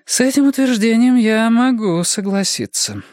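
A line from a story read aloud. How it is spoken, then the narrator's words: Sighing, downcast. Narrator (Russian): вздохнула Бонни, потупившись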